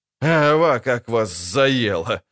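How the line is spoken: Laughing. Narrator (Russian): рассмеялся Виллиберт

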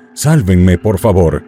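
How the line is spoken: Pleading. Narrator (Spanish): el asesino en serie le suplicó

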